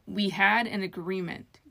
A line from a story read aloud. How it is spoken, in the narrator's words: Gilmore snapped